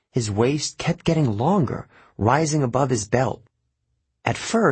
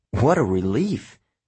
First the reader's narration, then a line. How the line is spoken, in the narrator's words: the centaur said